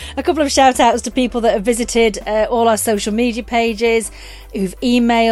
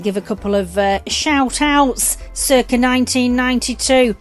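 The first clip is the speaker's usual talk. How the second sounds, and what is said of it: Put-on Manchester accent. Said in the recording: “Don't even know why I did it in a Manchester accent.”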